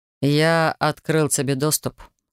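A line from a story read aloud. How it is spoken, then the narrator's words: Calm, from behind. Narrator (Russian): спокойно пояснил стоявший за моей спиной Гейл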